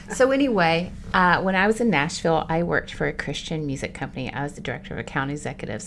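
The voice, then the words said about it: Slight Southern twang. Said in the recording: “the Nashville accent ... My little twang”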